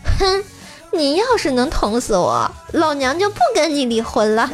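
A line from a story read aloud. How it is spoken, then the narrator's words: Sneering. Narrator (Chinese): 鸡嫂一听冷笑道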